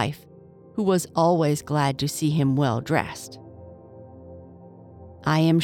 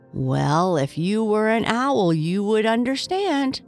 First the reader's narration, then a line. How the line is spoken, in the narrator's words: chuckled the crow